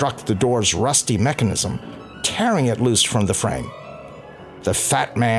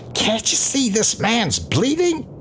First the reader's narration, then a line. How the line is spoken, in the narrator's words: He screamed